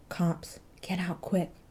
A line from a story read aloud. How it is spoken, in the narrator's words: he muttered